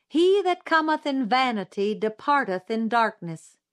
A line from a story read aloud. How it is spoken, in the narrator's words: a shrill-voiced woman called out